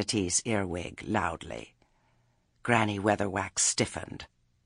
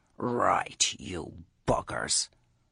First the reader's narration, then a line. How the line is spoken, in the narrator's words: Nanny Ogg heard her mutter